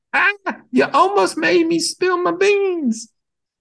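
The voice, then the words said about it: Old granny voice. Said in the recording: “in her best granny voice”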